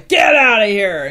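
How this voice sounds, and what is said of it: Big loud shouting voice. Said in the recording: “I do a big loud voice.”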